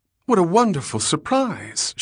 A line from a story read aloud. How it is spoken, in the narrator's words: exclaimed